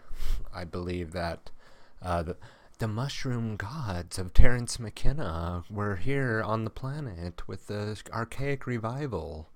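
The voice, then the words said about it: Poor imitation of another person's voice. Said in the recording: “bad Terence McKenna impression.”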